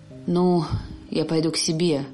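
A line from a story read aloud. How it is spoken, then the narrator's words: Frightened, chilled speech. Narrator (Russian): сказал отец Игнатий, которому сделалось холодно и страшно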